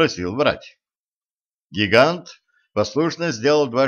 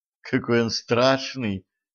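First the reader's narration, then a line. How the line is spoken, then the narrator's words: Sigh. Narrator (Russian): вздохнула принцесса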